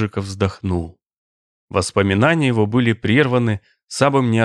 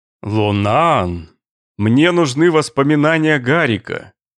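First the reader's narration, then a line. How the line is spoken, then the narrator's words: Loud. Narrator (Russian): громко сказал вошедший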